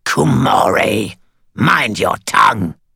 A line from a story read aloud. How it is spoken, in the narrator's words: Cowl snarled